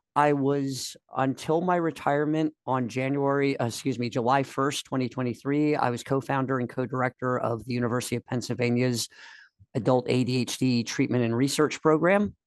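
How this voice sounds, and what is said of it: Voice rough from a cold. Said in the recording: “pardon my voice, I'm getting over a bad cold”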